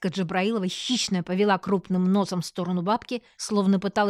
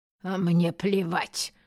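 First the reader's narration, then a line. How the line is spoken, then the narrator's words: Gruff old woman muttering. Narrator (Russian): буркнула бабка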